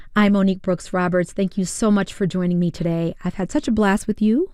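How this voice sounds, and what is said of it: Hoarse voice. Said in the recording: “Excuse my hoarse voice. The allergies have gotten the best of me”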